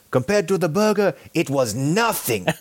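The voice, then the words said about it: Imitates another person's accent. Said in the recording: “My accent ... great imitation of me ... I could hear a little bit of ... in there”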